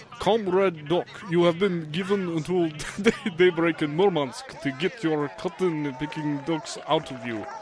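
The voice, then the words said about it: Exaggerated Russian accent. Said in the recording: “Spoken in a real bad Russian accent, a really bad comrade ... That was pretty good.”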